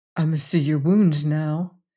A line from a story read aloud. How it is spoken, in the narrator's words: he said gently